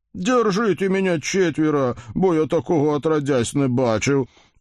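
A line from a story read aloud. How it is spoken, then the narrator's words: Groaning flushed blacksmith. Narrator (Russian): простонал кузнец, красный, как свекла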